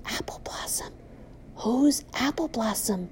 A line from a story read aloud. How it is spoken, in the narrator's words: A few whisper